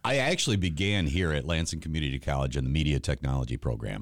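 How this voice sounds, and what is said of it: Deep baritone radio voice. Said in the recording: “That's a radio voice. That's a true radio voice. ... a baritone?”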